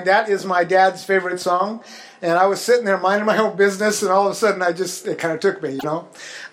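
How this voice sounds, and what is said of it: Emotional, teary voice. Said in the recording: “I'm a little teary-eyed”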